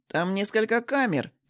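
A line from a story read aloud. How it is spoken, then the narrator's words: Over phone, silly giggle. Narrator (Russian): перезвонил он и глупо хихикнул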